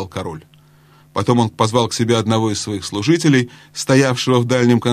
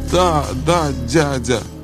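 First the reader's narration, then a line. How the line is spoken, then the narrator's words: Sobbing. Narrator (Russian): всхлипывая, ответил Каспиан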